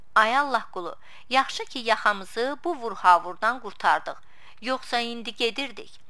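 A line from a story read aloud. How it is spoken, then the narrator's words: Laughing. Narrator (Azerbaijani): Kazım gülərək dedi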